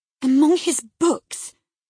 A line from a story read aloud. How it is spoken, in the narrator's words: cried, confounded